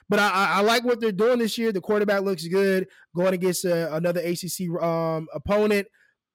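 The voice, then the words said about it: Raspy voice, talking fast. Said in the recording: “I'm talking too fast, man. I'm trying to overcompensate for this raspy voice.”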